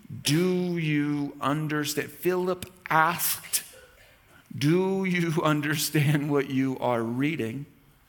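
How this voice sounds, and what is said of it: Slow, deliberate reading aloud. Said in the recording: “reading this slowly”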